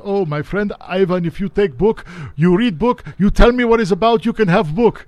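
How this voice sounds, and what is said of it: Imitated Persian accent. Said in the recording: “in his beautiful Persian accent”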